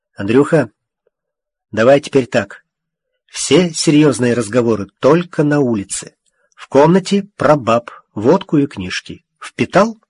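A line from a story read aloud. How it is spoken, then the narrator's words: Quiet. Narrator (Russian): Илья негромко сказал Обнорскому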